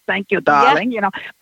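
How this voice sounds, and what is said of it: Put-on German accent. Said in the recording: “she speaks with a German accent”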